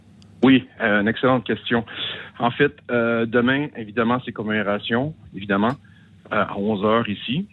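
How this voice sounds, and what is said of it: Québécois French accent. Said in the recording (French): “votre accent québécois”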